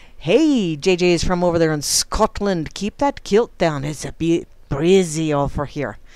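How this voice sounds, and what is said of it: Poor put-on Scottish accent. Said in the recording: “that was a suck-ass Scottish accent ... I did the suck-ass Scottish accent”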